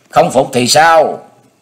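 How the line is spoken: Angry. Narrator (Vietnamese): Lãnh quyền giận dữ

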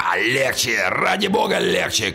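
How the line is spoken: Shouted. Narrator (Russian): кричал он

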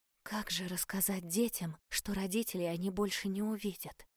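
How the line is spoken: Bewildered whisper. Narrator (Russian): растерянно прошептала я

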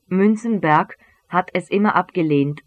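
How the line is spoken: Plain. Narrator (German): sagte Katz

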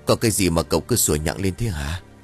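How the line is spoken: Tired grumble. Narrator (Vietnamese): ông đầm bầm bằng giọng mệt mỏi

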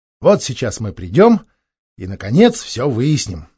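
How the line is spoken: Excited thought. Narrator (Russian): взволнованно думал он

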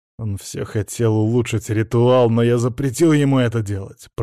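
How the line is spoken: Growled. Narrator (Russian): прорычал Владимир

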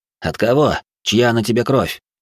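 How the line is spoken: Snorting mimicking question. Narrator (Russian): Я хмыкнул точь-в-точь, как он и спросил сам

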